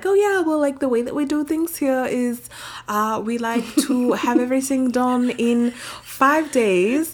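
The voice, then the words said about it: Put-on vaguely German accent. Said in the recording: “Why that accent, though? ... they're based in Germany. And I know that that's, like, not German, but, like, kind of.”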